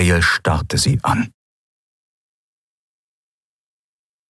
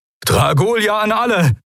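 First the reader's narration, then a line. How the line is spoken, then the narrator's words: Called out. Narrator (German): rief Telios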